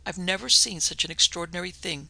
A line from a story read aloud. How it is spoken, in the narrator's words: said Stavordale Hartland